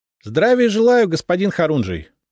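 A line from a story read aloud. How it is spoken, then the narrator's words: Brisk, cheerful greeting. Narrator (Russian): бодро поприветствовал он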